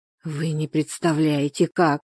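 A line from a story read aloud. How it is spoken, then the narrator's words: Hoarse. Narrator (Russian): хрипло ответила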